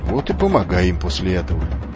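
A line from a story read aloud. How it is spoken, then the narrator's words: Offended, curt. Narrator (Russian): обиженно бросил он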